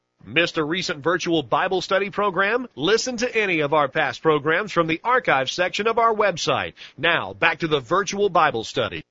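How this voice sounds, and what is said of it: Radio announcer voice. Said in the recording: “you may have recognized that voice who just did that promo for us... He's our real radio announcer voice”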